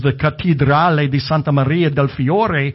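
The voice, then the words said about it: Fake Italian accent. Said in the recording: “in my best fake Italian accent that I can muster.”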